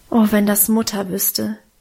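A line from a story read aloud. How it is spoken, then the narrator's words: Sigh. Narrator (German): seufzte ich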